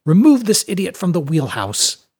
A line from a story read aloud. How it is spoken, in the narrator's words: In his native tongue, Sjalfstiri, he barked